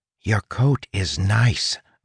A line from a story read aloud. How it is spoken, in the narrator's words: whispered